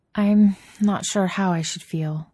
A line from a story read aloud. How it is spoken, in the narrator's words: admits, sighing and feeling herself deflate